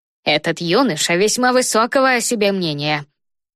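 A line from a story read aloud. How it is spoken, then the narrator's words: Grumbled. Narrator (Russian): проворчал мистер Спенсер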